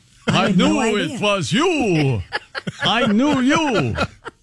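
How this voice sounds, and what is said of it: Vampire accent imitation. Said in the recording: “She does it with a vampire accent.”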